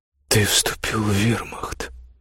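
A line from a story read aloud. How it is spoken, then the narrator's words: Stunned mutter. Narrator (Russian): ошеломленно пробормотала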